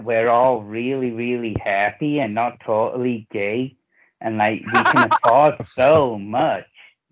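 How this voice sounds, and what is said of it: Put-on slow American accent. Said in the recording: “Who can do the best American accent? ... you gotta speak a specific American accent ... it's gotta sound American ... I hate that slow talking, man.”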